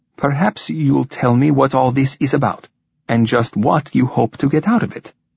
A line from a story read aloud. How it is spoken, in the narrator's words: he said evenly